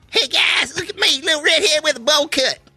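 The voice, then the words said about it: Put-on country accent. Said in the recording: “With a country accent.”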